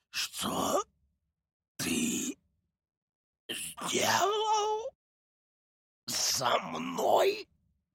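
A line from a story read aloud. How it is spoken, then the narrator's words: Hoarse rasp. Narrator (Russian): прохрипел бог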